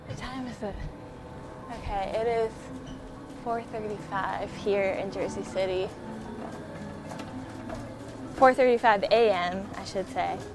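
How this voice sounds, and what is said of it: Out of breath, panting speech. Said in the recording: “Oh man, I'm out of breath.”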